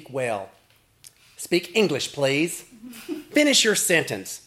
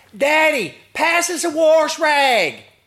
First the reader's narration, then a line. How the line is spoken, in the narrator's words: In the echoey shower, my brother yells through the glass door